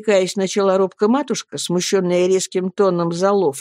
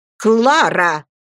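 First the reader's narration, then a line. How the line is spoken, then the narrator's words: Angry. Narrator (Russian): проговорила мисс Мордстон, сердито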